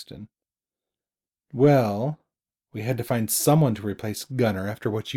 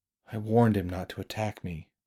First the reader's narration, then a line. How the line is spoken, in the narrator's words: Braxton replied quietly